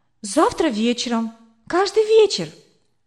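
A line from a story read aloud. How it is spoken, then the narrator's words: Excited reply. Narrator (Russian): взволнованно ответила я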